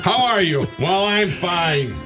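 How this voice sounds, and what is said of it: Old man voice. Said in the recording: “I sound like an old geezer, don't I?”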